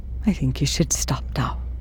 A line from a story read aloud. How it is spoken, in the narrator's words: he whispers